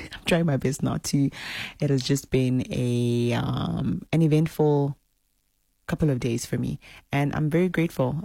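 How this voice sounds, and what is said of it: Tired, exhausted-sounding voice. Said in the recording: “I sound exhausted.”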